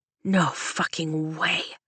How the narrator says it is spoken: Dane whispers, but it reverberates in my bones like a lightning strike

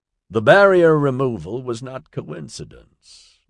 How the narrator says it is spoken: Nigel said

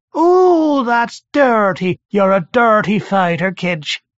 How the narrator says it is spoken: From the thing's navel mouth, Nargal's voice screeched

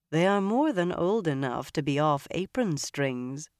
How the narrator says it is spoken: Moiraine said dryly

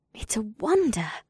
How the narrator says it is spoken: breathed in an amazed tone

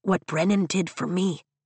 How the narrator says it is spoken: she says softly

